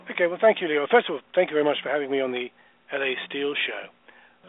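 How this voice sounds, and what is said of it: English accent. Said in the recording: “people will hear my accent and say, "Well, he's English."”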